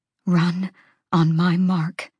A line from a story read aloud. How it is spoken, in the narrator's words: she said quietly